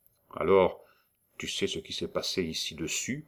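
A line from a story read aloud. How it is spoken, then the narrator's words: Low voice. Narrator (French): prononça-t-il à voix basse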